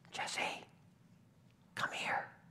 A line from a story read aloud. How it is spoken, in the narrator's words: Samuel called quietly